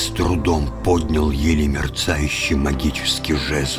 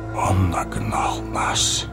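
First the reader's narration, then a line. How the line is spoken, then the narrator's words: Whispering. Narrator (Russian): прошептал Гэндальф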